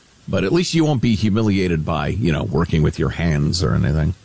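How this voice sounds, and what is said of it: Heavily sarcastic tone. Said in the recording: “That was sarcasm in case you didn't pick up on that. ... my voice was dripping with sarcasm.”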